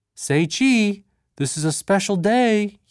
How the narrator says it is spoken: cried out

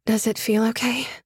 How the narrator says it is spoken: I asked him tentatively, tightly

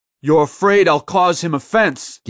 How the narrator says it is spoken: Gideon yelled after her

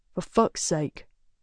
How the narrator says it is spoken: mutters

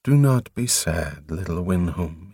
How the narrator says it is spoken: he murmured

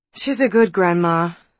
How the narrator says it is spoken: sighed Elizabeth

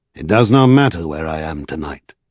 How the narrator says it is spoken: he said in a dull tone, quite unlike his usual voice

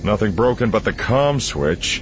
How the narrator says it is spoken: Han grumbled

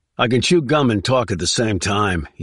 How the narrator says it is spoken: he snapped

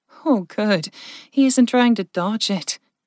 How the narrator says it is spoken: Jen chuckled

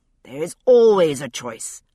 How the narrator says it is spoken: Husband bellowed back

